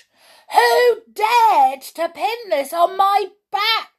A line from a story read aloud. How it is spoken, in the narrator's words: He shouted